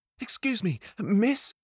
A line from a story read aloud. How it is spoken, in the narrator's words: he said, panting